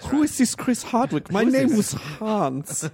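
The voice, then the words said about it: Good put-on German accent. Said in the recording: “in a German accent ... That German accent is really good”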